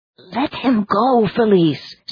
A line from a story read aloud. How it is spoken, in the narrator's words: said Claude urgently